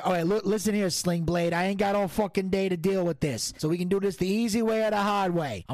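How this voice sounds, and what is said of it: Put-on Italian-American mobster accent. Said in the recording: “I do this fucking accent ... don't you disrespect the Don ... You spaghetti-o prick”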